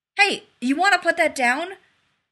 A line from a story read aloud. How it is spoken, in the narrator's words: He called urgently